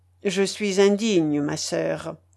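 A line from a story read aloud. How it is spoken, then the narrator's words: Plain. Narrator (French): dit-il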